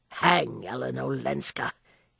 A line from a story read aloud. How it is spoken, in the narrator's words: he grumbled